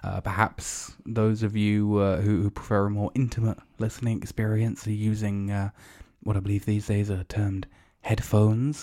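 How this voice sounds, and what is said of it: Low, hushed ASMR-style voice. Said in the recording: “just to get the closest ASMR style. I don't know why my voice has gone all the way down here.”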